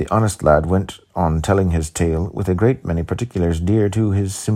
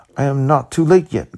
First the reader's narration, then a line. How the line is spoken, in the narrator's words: cried the communicative lad